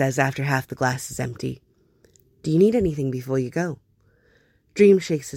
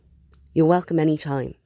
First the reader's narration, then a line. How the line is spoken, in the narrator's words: Hob says firmly